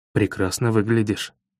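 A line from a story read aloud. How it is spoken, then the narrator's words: Muttered. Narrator (Russian): бормочу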